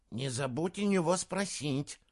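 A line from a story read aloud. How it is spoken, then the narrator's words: Hissed. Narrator (Russian): прошипел Джеремия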